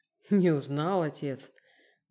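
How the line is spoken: Mocking, trembling question. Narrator (Russian): Насмешливо, но с дрожью в голосе спросил вошедший

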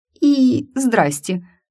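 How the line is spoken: Strained, intimidated. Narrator (Russian): с трудом выдавила я, чувствуя себя под пронизывающим взглядом Эрта Торано, как мышь перед драконом

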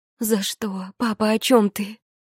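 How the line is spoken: Sobbing woman. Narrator (Russian): Я всхлипнула каждой клеточкой

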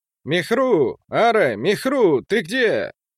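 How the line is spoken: Shouted. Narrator (Russian): закричал он

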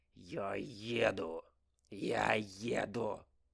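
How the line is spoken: Tense, through clenched teeth. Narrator (Russian): Процедил Алексей, чувствуя, как желваки ходят ходуном

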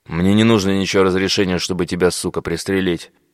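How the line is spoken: Angry. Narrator (Russian): Зло сказал один из бойцов

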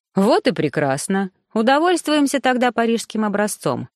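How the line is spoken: Cheerful, smiling reply. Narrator (Russian): весело подхватил Тамье, улыбаясь молодой женщине

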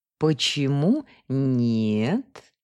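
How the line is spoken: Seductive low purr. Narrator (Russian): манящим грудным голосом промурлыкала она

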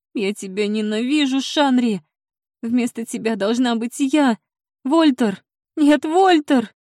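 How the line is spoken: Sobbing woman. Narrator (Russian): Она разрыдалась

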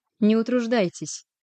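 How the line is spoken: Cold, curt. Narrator (Russian): Холодно бросила она подоспевшему отряду стражников

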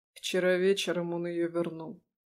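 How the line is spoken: Quiet. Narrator (Russian): тихо сказал Лешка

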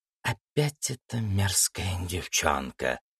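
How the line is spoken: Hissing. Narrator (Russian): прошипела Демонесса

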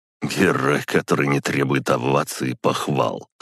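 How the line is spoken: Snorting. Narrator (Russian): хмыкнул Максим Игоревич

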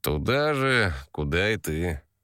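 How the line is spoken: Man drawling. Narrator (Russian): протянул мужчина

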